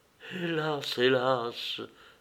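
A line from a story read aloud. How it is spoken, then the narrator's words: Murmuring. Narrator (French): murmura Actée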